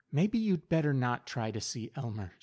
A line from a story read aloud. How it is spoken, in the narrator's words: she whispered